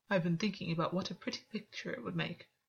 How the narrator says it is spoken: Gwyn said quietly

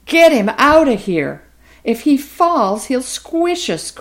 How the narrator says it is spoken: cried several of the smaller stars

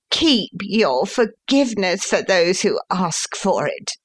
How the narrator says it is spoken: he answered, with a sneer

